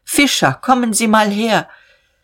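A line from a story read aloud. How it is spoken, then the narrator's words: Calling outside. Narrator (German): rief hinaus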